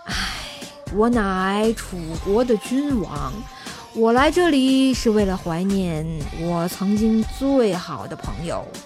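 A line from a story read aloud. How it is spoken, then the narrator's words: Long sigh. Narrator (Chinese): 楚怀王长叹一口气啊，就说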